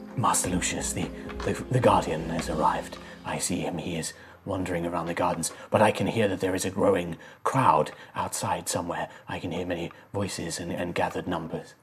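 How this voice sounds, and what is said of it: Ethereal otherworldly character voice. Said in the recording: “you can hear in your mind this voice, this kind of ethereal voice.”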